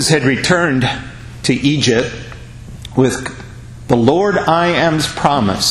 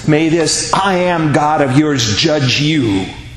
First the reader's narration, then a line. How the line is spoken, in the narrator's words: the people screamed at Moses